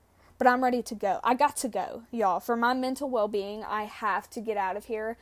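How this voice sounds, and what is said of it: Southern American twang. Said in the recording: “I know I have a twang. It's undeniable.”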